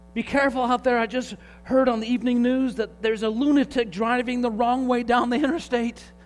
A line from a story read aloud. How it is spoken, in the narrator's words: yelled